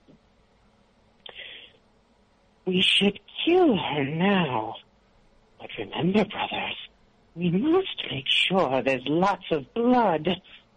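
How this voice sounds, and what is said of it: Creepy villain character voice. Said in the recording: “you're doing a creep voice.”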